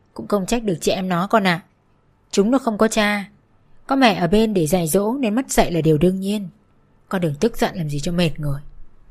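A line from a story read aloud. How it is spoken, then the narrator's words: Heavily sarcastic tone. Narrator (Vietnamese): nói bằng giọng điệu mỉa mai nhất có thể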